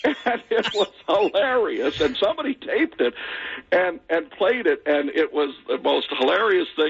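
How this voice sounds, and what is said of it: Usual voice. Nothing is said of it.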